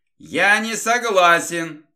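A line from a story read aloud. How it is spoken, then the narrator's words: Yowling cat. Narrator (Russian): завопил кот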